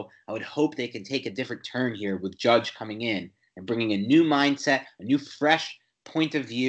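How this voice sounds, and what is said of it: Usual voice. Nothing is said of it.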